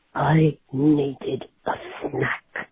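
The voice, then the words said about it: Very spooky voice. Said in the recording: “in a very, very spooky voice”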